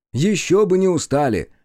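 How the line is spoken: Excited exclamation. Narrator (Russian): восторженно воскликнул

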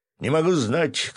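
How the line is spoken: Artilleryman shouting. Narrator (Russian): крикнул артиллерист

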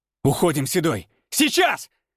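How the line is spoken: Barked. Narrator (Russian): рявкнул Александр

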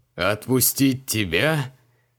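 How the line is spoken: Chuckling. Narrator (Russian): хохотнул Креол

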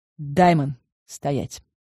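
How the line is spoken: Calm command. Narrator (Russian): спокойно приказала я

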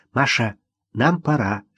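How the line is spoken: Whispered. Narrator (Russian): шепнула Ирина

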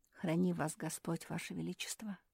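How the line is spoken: Whisper. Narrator (Russian): прошептал Мруэн

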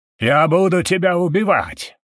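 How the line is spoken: Sudden yell. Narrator (Russian): вдруг заорал Лекс

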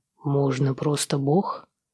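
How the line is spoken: Dry mutter. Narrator (Russian): сухо бормочет он в ответ

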